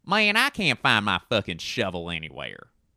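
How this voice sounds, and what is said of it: Deliberately poor put-on Southern accent. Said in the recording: “I'm going to do all these accents poorly ... Southern.”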